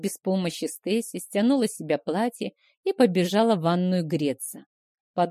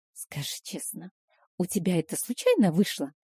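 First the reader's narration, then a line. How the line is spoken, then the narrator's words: Secretive whispered question. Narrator (Russian): Понизив голос до шепота, будто нас могут подслушать, спросила Стейси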